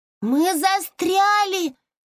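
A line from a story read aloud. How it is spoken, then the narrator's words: Shouting. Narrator (Russian): закричала Зойка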